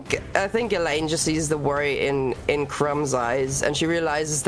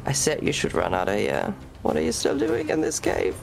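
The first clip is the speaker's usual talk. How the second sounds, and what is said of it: Quiet whisper. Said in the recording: “quietly whisper”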